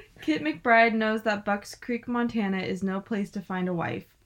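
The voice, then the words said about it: Southern accent while reading aloud. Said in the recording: “My little southern accent. You always come out in this.”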